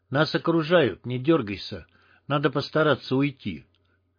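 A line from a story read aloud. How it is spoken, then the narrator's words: Quiet voice. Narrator (Russian): лис не окликнул его, подошел и негромко сказал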